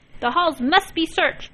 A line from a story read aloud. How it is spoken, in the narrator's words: he cried